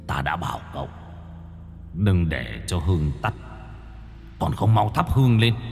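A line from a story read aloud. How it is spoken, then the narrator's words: Muttering. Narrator (Vietnamese): tiếng của thầy Hạ đang lẩm bẩm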